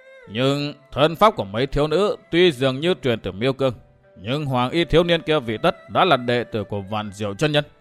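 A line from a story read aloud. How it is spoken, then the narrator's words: Muttering to himself. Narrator (Vietnamese): lầm bầm một mình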